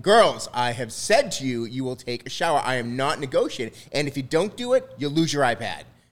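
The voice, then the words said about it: Firm cartoon-style dad voice. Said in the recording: “Nice dad voice, too. ... you got the job for Disney, bro. ... if I was to hire him as a dad for a cartoon ... That's a dad voice?”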